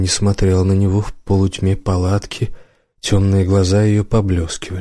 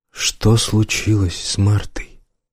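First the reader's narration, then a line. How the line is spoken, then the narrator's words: Quiet question. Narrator (Russian): спросил Убер негромко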